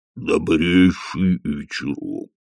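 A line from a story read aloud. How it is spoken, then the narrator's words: Booming drone. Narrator (Russian): прогудел он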